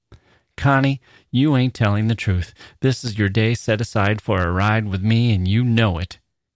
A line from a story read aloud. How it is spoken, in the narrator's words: he said, still laughing